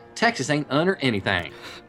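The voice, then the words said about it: Put-on Texan accent. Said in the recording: “translated from the original Texan ... Probably the best accent you have ever done.”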